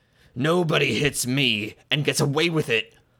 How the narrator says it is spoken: roared suddenly

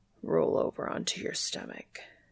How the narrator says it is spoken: he says huskily

